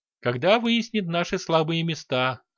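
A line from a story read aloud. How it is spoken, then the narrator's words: Plain. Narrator (Russian): ответил адмирал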